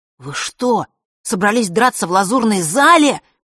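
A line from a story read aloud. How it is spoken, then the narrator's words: Desperate exclamation. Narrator (Russian): в отчаянии воскликнул он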